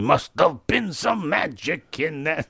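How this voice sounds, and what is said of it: Imitates another person's voice. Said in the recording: “that's my Jimmy Durante impression.”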